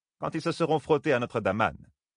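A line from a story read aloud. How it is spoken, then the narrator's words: Sneering. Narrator (French): ricana Tira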